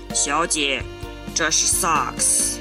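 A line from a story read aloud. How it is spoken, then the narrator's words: Through gritted teeth, resigned, Chinese. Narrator (Chinese): 他咬牙切齿，却一脸无奈地用中文对我说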